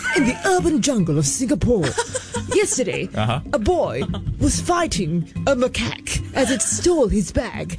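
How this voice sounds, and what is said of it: Nature documentary narrator voice. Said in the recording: “putting on my animal commentator voice ... There's David Attenborough and there's”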